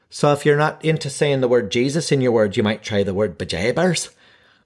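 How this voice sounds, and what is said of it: Mrs. Doubtfire Irish-Scottish accent impression. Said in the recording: “I'm not quite sure if this is an Irish or a Scottish accent. I'm just trying to mimic Mrs. Doubtfire, dearie.”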